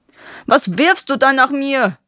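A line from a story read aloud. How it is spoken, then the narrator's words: Roaring in sudden pain. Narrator (German): brüllte der Dieb auf, dem das Felsstück mitten auf die Stirn gefallen war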